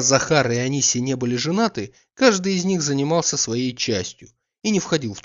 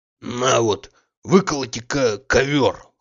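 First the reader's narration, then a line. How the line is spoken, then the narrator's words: Hoarse, commanding. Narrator (Russian): хрипел он повелительно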